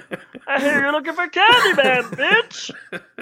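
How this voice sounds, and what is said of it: Pee Wee Herman impression. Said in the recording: “a Pee Wee Herman voice ... that's obviously Pee Wee Herman.”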